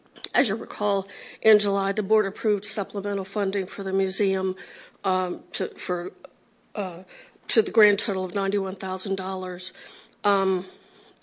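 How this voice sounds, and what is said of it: Hoarse, fading voice. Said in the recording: “I'm losing my voice because of a cold.”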